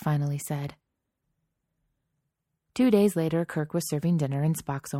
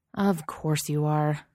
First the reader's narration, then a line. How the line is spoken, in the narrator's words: Kirk grumbled